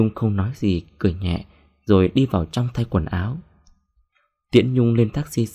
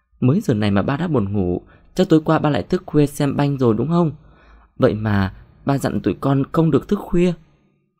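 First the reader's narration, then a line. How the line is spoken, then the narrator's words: Giggling laughter. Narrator (Vietnamese): Thu bật cười khanh khách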